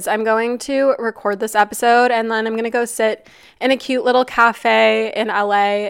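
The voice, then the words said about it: Raspy, nasal voice. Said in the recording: “my voice is raspy or nasally or just off today. It doesn't normally sound like this. I kind of like the raspiness”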